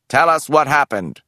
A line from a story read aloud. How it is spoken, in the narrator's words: the inquisitor's voice barked from the loudspeaker